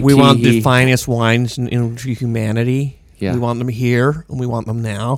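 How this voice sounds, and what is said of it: Put-on American accent, imitates another person's voice. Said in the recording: “his American accent sounds like Nicolas Cage ... that one was like spot on Nicolas Cage”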